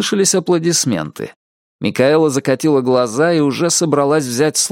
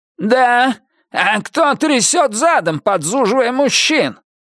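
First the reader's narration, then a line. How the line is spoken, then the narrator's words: Shouted. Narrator (Russian): крикнул Дон Питерс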